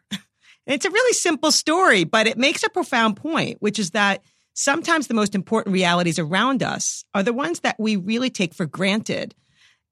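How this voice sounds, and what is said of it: New York accent. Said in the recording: “I'm a New Yorker, as you can probably detect from my accent.”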